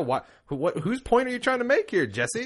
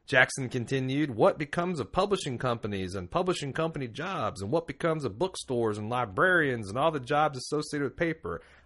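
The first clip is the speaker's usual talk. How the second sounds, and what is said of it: Put-on exaggerated Southern accent. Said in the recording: “I'm actually doing like a southern ignorant person's accent.”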